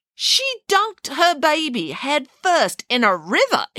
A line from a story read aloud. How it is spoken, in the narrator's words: exclaimed Samantha